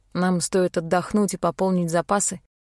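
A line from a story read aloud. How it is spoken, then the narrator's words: Plain. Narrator (Russian): ответил Рейн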